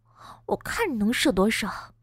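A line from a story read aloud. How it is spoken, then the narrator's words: Muffled muttering. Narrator (Chinese): 边吸边嘀咕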